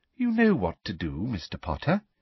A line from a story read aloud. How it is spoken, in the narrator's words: said Umbridge, smiling sweetly at him